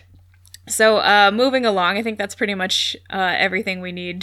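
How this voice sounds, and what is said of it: Usual voice. Nothing is said of it.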